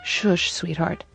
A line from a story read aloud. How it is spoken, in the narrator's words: he murmured